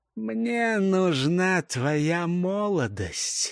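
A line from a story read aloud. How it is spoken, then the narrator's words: Hoarse, into ear. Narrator (Russian): хрипло проговорил ей в ухо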